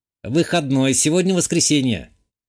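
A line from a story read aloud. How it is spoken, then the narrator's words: Computer voice snort. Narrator (Russian): хмыкнул из динамиков сервера компьютерный помощник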